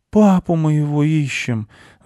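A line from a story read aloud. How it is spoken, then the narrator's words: Boy's sigh. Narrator (Russian): вздохнул мальчик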